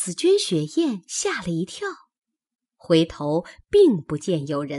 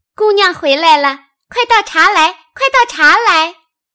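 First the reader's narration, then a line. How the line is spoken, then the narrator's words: Parrot mimicking speech. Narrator (Chinese): 鹦鹉叫唤，学着说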